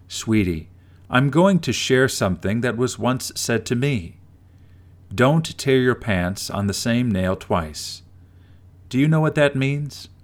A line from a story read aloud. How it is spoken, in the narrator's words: her grandma replied in a calm voice